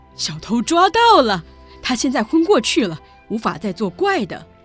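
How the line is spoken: Shouting. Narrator (Chinese): 凯洛斯喊着

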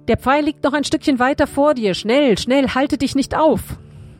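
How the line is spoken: Calling out. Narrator (German): rief Jonathan

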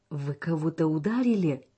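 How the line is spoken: Young woman exclaiming. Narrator (Russian): воскликнула девушка

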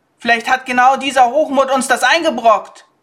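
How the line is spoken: Interjecting shout from crowd. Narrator (German): rief jemand aus der Menge dazwischen

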